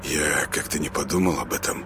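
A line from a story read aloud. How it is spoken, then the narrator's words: Muttered. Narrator (Russian): буркнул Артем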